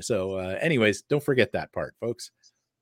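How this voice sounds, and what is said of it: Announcer-style radio voice. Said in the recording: “That's that's a very good radio voice you have there”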